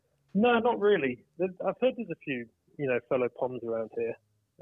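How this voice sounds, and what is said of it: Slight English accent. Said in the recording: “a slight English accent”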